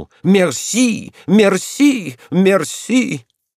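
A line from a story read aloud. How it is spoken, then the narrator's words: Shouted. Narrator (Russian): парикмахер встрепенулся, ожесточенно захлопал и крикнул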